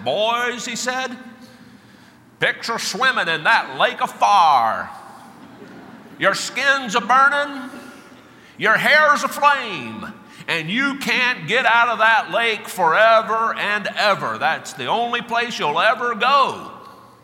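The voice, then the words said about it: Dramatic southern preacher accent. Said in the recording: “made even more dramatic by his southern accent.”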